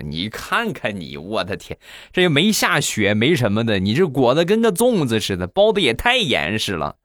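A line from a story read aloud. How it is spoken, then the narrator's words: Mocking. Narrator (Chinese): 同事就嘲笑他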